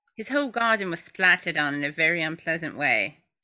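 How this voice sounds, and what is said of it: Put-on English accent. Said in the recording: “My English accent is so great.”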